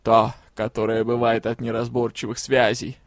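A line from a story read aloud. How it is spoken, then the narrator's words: Chuckling. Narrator (Russian): хохотнула повозка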